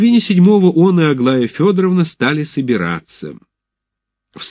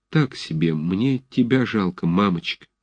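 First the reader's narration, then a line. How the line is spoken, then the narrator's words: Shy sniffling mumble. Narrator (Russian): странная стыдливая робость сковала его язык, и он только пробормотал, возя носом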